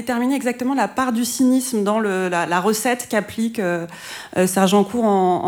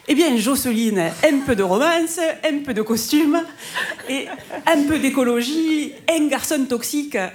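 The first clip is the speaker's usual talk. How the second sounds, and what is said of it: Southern French accent imitating Maïté. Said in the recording (French): “voilà l'accent du Sud”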